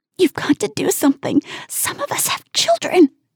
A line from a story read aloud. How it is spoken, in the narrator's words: she hisses